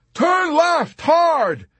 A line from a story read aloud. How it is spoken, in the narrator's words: he hollered to McWatt